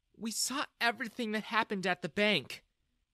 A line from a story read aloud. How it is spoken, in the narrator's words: Jessica said sadly